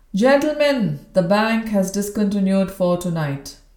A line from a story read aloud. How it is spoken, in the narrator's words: the croupier called out